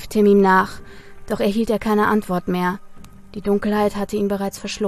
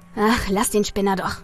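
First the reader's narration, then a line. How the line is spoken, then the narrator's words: Muttered. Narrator (German): murmelte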